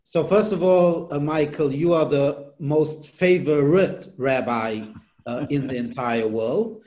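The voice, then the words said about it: Non-native English accent. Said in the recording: “from your accent, uh, you were not born here in the United States”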